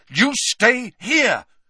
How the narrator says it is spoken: Harry repeated angrily

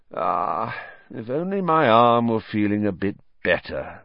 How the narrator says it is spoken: sighed

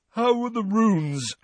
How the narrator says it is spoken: said Ron, yawning and stretching

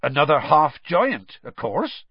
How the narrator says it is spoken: said Hagrid

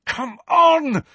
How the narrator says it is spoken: said Harry desperately

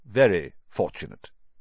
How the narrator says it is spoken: he said stiffly

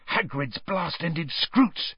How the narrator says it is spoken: he hissed

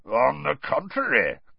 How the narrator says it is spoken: growled Moody

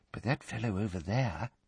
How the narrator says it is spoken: he said, dropping his voice

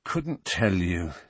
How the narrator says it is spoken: said Harry wearily

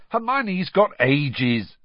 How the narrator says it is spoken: snapped Ron

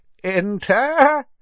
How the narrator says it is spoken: said the old wizard in a feeble voice

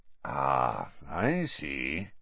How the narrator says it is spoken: said Moody softly

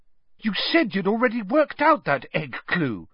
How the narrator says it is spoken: said Hermione indignantly

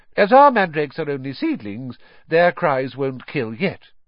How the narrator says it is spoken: she said calmly

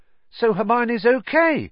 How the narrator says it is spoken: said Ron, brightly

